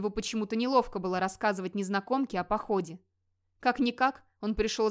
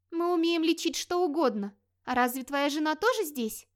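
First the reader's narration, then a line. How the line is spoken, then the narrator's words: Timid surprise, young woman. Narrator (Russian): робко удивилась девушка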